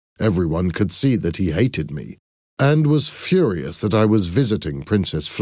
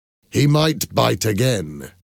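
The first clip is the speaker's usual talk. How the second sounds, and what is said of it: Hostile tone of voice. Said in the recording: “Michael said in a hostile voice.”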